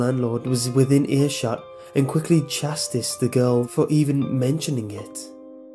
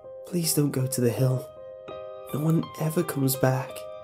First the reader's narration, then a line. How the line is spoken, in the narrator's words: a young woman, barely out of her teens, whispered into his ear